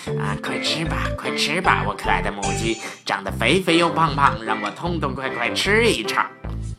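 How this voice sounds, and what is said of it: Quiet muttering chant. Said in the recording (Chinese): “狼大叔啊，小声念叨着。”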